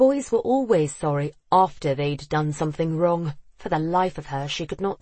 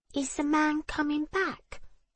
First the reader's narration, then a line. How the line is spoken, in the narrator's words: James asked in his sweet high voice